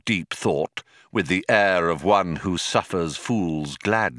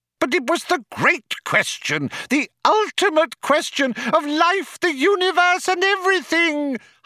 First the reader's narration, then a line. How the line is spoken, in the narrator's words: howled Loonquall